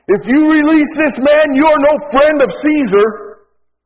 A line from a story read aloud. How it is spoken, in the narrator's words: the Jews cried out